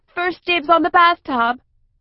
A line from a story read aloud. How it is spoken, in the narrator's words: breaking into a gallop and shouting over her shoulder